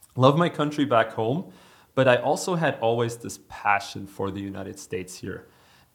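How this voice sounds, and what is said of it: German accent. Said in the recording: “people have already detected again another German accent ... if they detect this German accent ... I have a German accent.”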